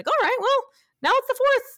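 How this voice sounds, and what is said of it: Imitates another person's voice. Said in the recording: “That's a terrible, I don't know how we sounded, but that was my imitation.”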